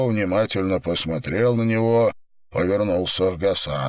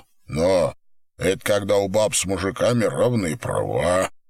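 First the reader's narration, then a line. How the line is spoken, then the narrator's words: Muttered. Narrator (Russian): пробормотал Пека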